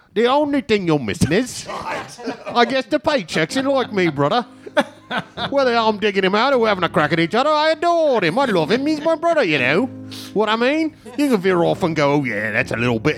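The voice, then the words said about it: Imitated Manchester accent. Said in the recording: “Can you do this as a Liam? ... I can't do a Manchester accent”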